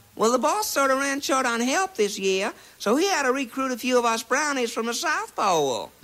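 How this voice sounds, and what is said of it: Put-on Southern accent. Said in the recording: “with a southern accent”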